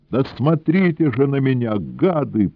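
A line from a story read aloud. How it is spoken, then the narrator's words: Tearful shout. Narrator (Russian): плачущим голосом закричал Сенька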